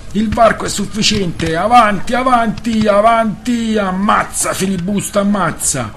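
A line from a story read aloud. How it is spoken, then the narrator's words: Crowd yelling full-throated. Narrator (Italian): i filibustieri ... urlavano a perdifiato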